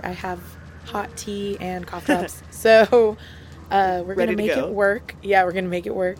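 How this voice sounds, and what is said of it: Scratchy, hoarse voice. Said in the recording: “my voice is a little bit scratchy”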